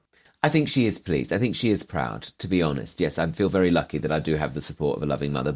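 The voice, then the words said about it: Posh English accent. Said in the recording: “accent now sounds ever so posh”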